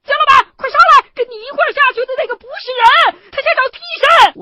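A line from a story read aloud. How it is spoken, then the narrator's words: Sudden shout from upstairs. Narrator (Chinese): 楼上的许传强突然一声大喊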